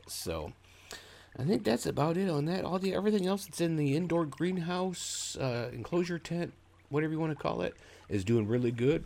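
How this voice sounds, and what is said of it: Congested, deeper than usual voice. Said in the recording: “we've all got sinus issues here right now. My voice is a little bit deeper, and I've been coughing quite a bit”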